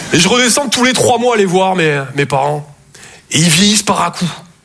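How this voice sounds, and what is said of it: Toulouse southern French accent. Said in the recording (French): “Je viens de Toulouse, à la base. Ouais, ça s'entend un peu. ... mon accent”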